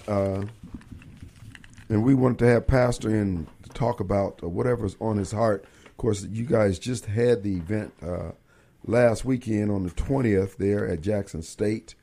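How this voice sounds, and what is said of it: Slightly hoarse voice. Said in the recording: “I am a little hoarse today”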